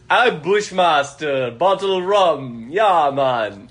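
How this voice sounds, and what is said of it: Put-on Jamaican accent. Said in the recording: “I can accurately, within an inch, portray a Jamaican accent. ... You were just doing it.”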